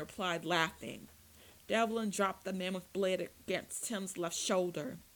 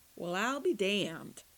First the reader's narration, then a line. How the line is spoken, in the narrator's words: John said